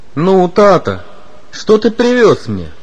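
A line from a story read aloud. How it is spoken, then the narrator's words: Cheerful child's question. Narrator (Russian): весело спросил любимец семьи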